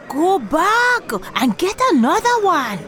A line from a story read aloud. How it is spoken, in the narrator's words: yelled